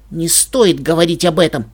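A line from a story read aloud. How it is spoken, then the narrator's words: Sharp, harsh. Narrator (Russian): отрезала я резко и жестко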